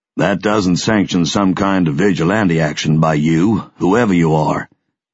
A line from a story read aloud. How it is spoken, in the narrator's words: Mac said thickly